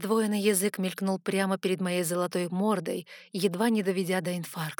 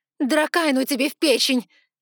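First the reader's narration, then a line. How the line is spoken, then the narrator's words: Frightened yell. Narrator (Russian): заорала я с перепугу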